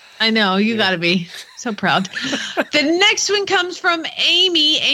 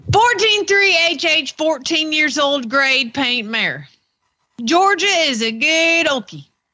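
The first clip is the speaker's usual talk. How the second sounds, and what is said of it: Put-on Southern American accent. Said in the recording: “you need a Southern accent for this one ... This is definitely Southern.”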